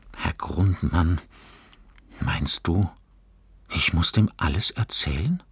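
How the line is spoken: Murmuring. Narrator (German): murmelte Fabian

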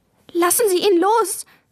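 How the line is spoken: Cried out tearfully. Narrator (German): rief Maja, und in ihre Augen kamen Tränen

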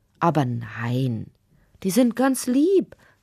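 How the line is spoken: Plain. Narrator (German): sagte Fritz Wagner

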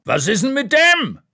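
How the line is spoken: Man shouting across room. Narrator (German): schreit ein Mann hinter der Theke quer durch den Raum

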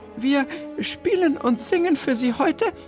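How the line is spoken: Slightly shaky voice. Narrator (German): wandte Bertha sich mit leicht zittriger Stimme an das erstaunte Publikum

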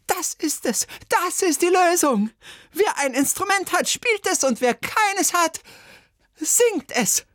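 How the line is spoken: Screaming. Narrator (German): Bertha Schüssel aber schrie

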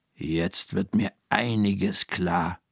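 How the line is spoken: Murmuring. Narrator (German): murmelt Frau Krüger

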